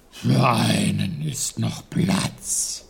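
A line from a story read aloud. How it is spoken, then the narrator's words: Bear's growl. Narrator (German): knurrte der Bär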